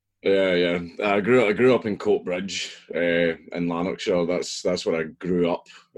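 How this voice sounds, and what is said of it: Scottish accent. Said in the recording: “I take it you grew up in Scotland. We're hearing that lovely accent coming through right now.”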